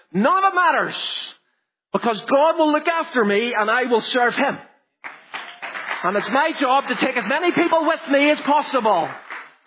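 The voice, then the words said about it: Shouting preacher. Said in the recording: “I'm not sorry for shouting,”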